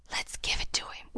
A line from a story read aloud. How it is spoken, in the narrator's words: whispered Laurie to Joe